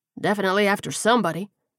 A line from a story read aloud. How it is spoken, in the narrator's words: he grunted